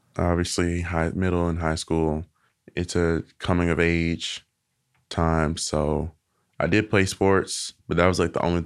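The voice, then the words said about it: Southern American accent. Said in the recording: “I do like being from the South. I do like, you know, my accent and y'all and stuff like that.”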